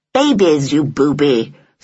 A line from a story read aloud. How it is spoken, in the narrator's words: said Hyacinth crossly